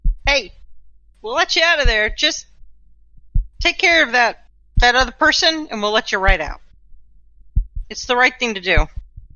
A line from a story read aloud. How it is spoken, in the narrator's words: she'll yell through the door